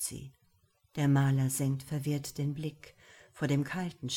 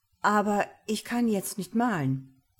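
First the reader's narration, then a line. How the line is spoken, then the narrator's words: Stammering. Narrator (German): stammelt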